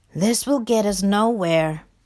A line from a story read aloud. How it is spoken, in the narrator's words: grumbled Rat